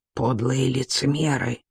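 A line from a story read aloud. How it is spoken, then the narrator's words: Whisper. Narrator (Russian): прошептал Кан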